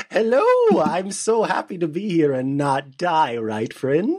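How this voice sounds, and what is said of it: Performed character voice. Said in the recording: “I've always been so jealous of your character voice. It's so good.”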